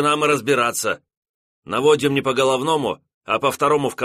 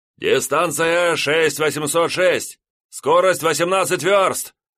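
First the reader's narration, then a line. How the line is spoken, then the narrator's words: Yelling into phone. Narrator (Russian): заорал сидящий с телефонной трубкой у уха чемоданов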